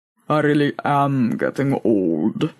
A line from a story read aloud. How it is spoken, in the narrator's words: muttered Boaz